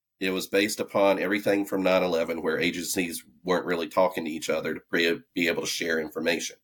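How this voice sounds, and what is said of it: Southern accent. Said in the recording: “you can hear my southern accent.”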